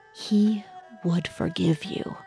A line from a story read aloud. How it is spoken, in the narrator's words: she held him close and whispered in his ear